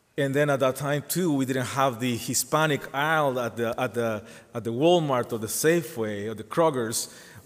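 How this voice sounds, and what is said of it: Spanish-speaker's accent in English. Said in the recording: “you can hear my accent ... We have accents in Spanish”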